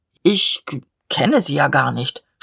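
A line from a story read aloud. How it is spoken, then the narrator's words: Stammering. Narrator (German): stammelte der Leutnant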